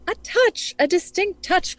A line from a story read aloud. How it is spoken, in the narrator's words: cried Holmes